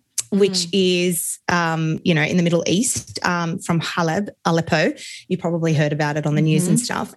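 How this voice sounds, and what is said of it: Australian accent. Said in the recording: “you guys probably know by now my accent, I'm Australian.”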